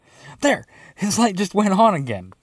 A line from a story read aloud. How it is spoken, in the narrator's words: Dino exclaimed